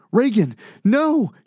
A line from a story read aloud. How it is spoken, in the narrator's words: cries out